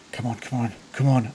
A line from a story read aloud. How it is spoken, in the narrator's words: under his breath